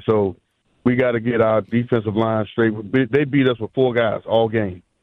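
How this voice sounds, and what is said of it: Hoarse, strained voice. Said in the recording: “I'm hoarse”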